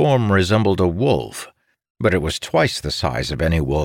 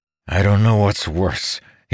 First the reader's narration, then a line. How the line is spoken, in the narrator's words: said through clenched teeth